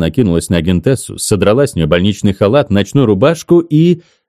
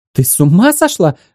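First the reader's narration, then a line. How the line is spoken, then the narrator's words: Shrieking. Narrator (Russian): взвизгнула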